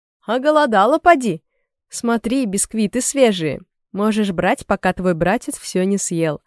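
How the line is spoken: Laughing. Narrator (Russian): Дядюшка Уилл засмеялся

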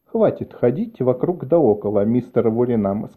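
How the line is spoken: Plain. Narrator (Russian): сказала она

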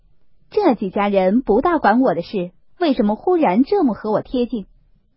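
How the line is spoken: Cold sneer. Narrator (Chinese): 冷笑道

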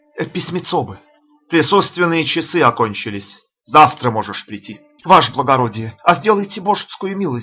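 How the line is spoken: Peasant pleading. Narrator (Russian): взмолился мужичок

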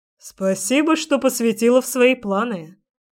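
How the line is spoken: Snorting scoff. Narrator (Russian): хмыкнул он

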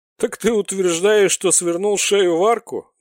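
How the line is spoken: Sudden loud laughter. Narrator (Russian): неожиданно расхохотался Бритоголовый

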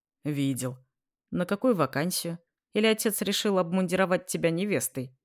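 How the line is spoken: Tired snort. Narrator (Russian): Я устало хмыкнул

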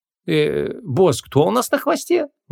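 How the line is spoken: Uncertain questioning. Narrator (Russian): неуверенно переспросил маленький контрабандист

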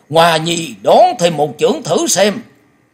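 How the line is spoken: Eager, competitive loud shout. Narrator (Vietnamese): lòng háo thắng của thiên âm quái tẩu chợt bùng dậy, lão hét to

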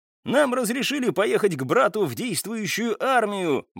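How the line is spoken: Ecstatic yell. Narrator (Russian): восторженно завопил Михаил, к которому через мгновение присоединился и Николай

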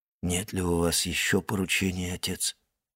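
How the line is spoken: Hollow muffled voice. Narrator (Russian): спросил Максимилиан глухим голосом

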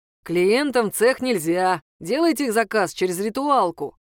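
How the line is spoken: Deep bass voice. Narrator (Russian): пробасил здоровяк

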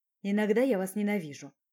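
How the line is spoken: Gloomy. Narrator (Russian): мрачно сказал Ярослав

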